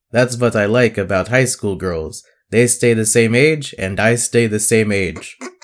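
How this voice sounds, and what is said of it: Creepy vampire character voice. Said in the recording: “my impression of a vampire who's also a creepy dude”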